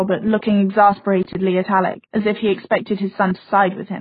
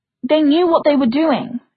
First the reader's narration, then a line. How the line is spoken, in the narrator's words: Isabel snapped